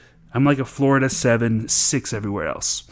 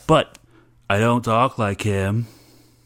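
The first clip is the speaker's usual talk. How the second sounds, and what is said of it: Bad put-on Southern accent. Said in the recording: “That was a really bad Southern accent.”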